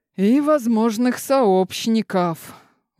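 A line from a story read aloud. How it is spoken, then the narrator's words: Exhaled words. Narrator (Russian): выдохнул дознаватель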